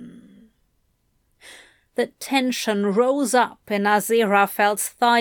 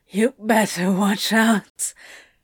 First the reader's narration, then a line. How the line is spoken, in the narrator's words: Crowley whisper sang to him, the imprint of his smile obvious